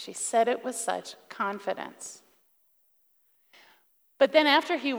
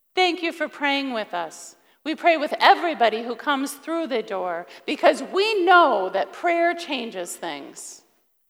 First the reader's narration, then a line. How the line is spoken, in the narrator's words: said in a very loud voice to make sure that her husband could still hear it